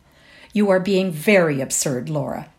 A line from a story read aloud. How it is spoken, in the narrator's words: she said coldly